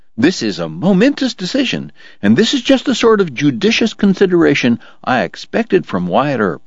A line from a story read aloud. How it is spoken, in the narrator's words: George cried